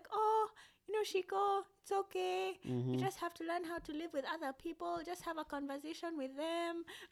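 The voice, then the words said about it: Thick Kenyan accent imitating mother. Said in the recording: “I love that accent you just busted into right there. ... Whenever you're talking about your mother, you get this really thick Kenyan accent.”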